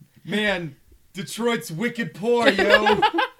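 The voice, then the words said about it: Imitated Boston accent. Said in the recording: “He'd still have the Boston accent. ... My Casey Affleck impression.”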